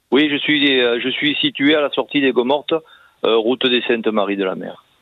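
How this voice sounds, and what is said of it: Southern French Camargue accent. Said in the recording (French): “Avec votre bel accent de la Camargue”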